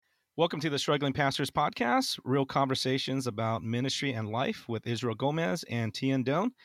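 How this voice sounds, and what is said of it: Sick, hoarse, weak voice. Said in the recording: “I'm kind of sick right now. My voice is, my voice is kind of gone ... my voice started cracking”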